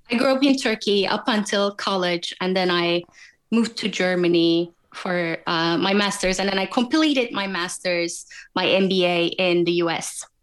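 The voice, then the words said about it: Foreign accent. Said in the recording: “where's the accent from?”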